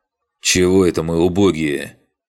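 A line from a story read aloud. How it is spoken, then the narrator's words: Through clenched teeth. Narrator (Russian): сжав зубы, процедил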